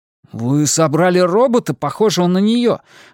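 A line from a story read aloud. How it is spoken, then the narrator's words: Indignant. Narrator (Russian): возмущенно сказал Исмаэль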